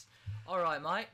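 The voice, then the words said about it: Put-on Australian accent. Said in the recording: “Oh, so we're British now. ... That was an Australian accent.”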